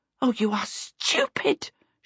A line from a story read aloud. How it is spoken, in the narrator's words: Charmaine cried out